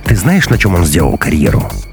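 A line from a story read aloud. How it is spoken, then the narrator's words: Sighing. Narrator (Russian): Маруся вздохнула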